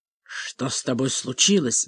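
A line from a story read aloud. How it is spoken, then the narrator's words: Angry whisper. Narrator (Russian): спросил он злым шепотом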